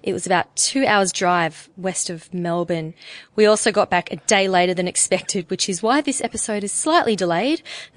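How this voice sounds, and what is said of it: Croaky voice. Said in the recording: “My voice is a little croaky today”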